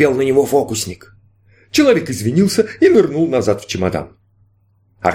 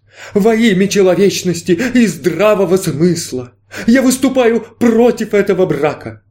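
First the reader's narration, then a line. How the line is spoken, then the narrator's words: Loud trembling voice. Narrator (Russian): Дрожащим голосом новоприбывший громко произнес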